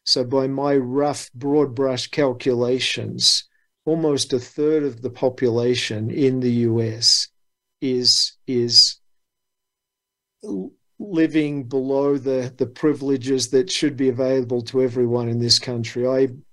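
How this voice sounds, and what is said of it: Australian accent. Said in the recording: “someone with an Aussie accent”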